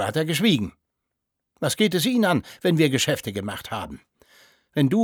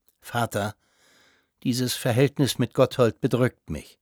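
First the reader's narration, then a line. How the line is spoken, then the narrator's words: Quiet. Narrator (German): sagte der Konsul leise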